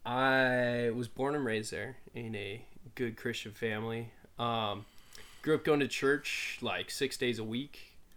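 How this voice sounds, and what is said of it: Slight unusual accent. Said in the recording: “I have a weird little accent.”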